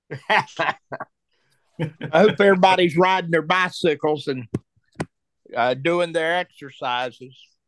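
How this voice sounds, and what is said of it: North Carolina accent. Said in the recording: “in North Carolina ... I love ... and his accent.”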